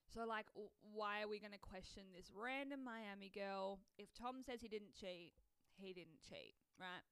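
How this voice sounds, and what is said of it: Voice giving out, strained. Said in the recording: “my voice is going”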